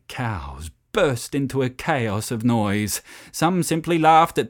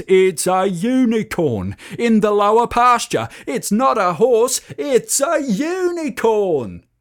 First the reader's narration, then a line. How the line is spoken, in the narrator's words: yelling at the top of his voice